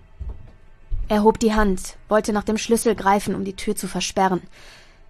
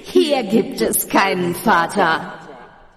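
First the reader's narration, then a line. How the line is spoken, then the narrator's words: Echoing laughter from darkness. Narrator (German): schallte es lachend aus der Dunkelheit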